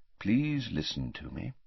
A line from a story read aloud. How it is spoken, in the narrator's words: said Dumbledore quietly